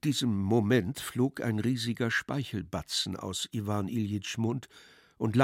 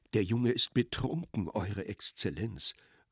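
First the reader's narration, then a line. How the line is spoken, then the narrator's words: Low murmur. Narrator (German): raunte Pseldonimow erneut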